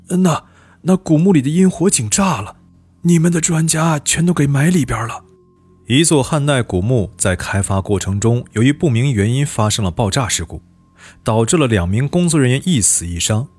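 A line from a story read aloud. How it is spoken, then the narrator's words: Trembling, distraught voice. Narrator (Chinese): 老张头两眼血红，颤声说道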